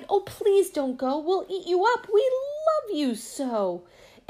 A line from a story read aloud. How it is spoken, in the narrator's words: the wild things cried